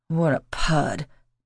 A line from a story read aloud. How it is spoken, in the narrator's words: Paul mumbled